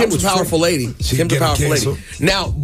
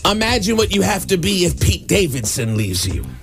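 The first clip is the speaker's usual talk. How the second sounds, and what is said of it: Imitates another person's voice. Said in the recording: “that's a good impression. ... It's not really that good.”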